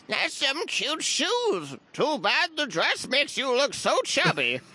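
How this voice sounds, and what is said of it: Old grandmother character voice. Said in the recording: “the accent is Grandma”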